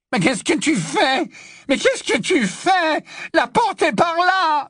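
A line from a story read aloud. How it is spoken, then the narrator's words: Yelled. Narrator (French): hurla Malfoy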